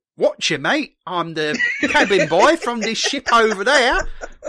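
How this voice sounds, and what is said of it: Deliberately bad put-on Cockney accent. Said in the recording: “speaking of terrible accents, we now get our first awful Cockney accent ... It made Dick Van Dyke's accent in Mary Poppins sound good”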